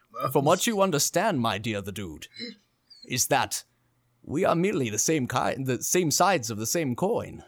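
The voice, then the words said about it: Captain Picard impression. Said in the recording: “No, Southern, I'm bringing in the Picard.”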